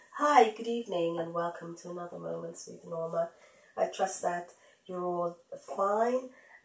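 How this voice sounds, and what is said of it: Congested, heady sick voice. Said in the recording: “I am not so well today, as you can hear in my voice ... I came down with the winter flu yesterday ... do excuse my heady voice”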